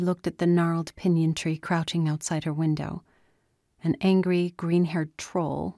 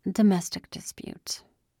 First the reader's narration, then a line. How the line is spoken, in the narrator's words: muttered into the glass